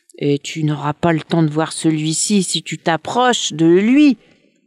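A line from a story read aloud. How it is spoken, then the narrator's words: Snake hissing. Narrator (French): siffla le serpent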